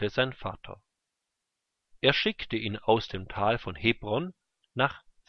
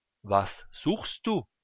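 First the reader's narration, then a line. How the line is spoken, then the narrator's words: Plain question. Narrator (German): fragte er ihn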